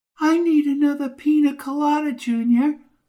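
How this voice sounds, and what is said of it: Squeaky female character voice. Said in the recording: “squeaky voice”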